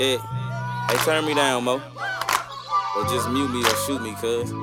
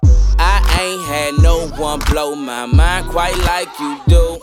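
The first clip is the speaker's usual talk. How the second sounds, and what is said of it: Loud put-on rapping voice. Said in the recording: “doing this voice ... I'm loud as shit right now”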